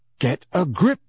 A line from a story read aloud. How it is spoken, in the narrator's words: said Harry sternly